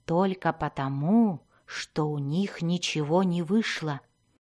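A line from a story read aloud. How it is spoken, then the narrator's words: Whisper. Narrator (Russian): прошептал Зак Дзирту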